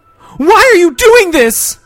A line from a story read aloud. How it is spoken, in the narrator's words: Doreen screamed